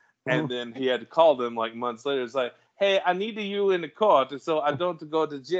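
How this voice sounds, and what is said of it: Usual voice. Nothing is said of it.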